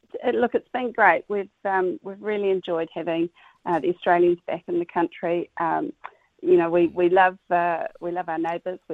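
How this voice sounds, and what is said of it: Slightly hoarse voice. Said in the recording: “hear my voice is a little bit hoarse after lots of chatting”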